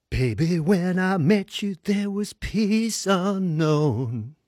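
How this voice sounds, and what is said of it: Imitates another person's singing voice. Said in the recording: “my very best impersonation of Kenny”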